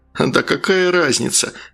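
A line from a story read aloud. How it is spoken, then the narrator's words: Laughing. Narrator (Russian): рассмеялся Валера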